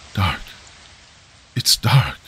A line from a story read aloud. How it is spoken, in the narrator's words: the monk whispering